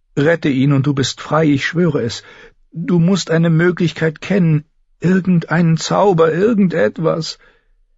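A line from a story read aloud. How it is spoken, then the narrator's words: Pleading. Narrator (German): flehte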